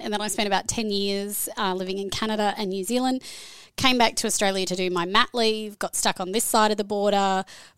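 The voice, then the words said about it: Australian accent. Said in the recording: “I'm originally Australian, as you can hear by the accent”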